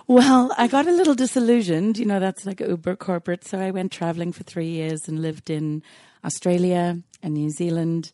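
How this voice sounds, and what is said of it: Mixed accent with rolled R's. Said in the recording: “my accent is quite an an amalgamation... I, have tried not to get an American accent, but I've learned I have to roll my R's here”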